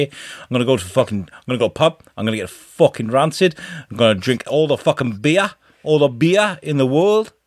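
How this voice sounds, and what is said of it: Poor put-on Newcastle accent. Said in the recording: “I'm sorry, Newcastle, by the way. I just butchered your accent.”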